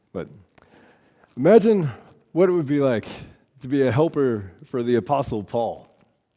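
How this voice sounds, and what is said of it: Voice sounds off, slightly unwell. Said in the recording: “Sorry, my voice is a little different. I've got something going on.”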